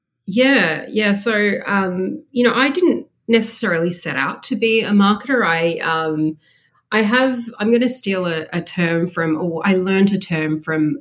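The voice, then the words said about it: Australian accent. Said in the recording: “Obviously we hear the Australian accent.”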